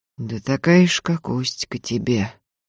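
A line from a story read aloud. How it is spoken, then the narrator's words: Calm reply. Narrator (Russian): спокойно отозвался Антип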